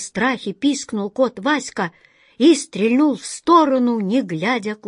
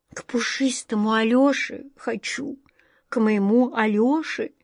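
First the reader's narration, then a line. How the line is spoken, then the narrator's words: Tearful whisper, cat. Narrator (Russian): чуть не плача шептал кот Васька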